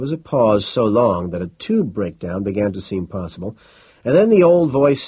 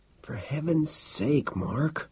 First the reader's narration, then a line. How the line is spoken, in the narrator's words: whispered